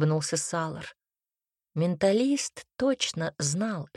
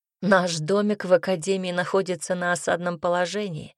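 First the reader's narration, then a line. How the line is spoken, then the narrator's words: Amused snort. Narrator (Russian): хмыкнул Айрон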